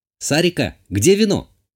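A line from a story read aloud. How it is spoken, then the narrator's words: Shout. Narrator (Russian): крикнула я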